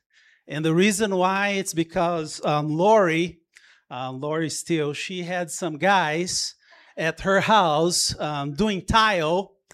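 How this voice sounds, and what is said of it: Brazilian-accented English. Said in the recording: “being from Brazil, my English is like perfect. There is no accent, but I can no longer do that ... Are you from Brazil? ... I could tell”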